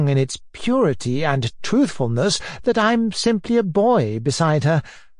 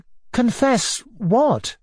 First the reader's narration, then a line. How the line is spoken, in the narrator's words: Natasha asked uneasily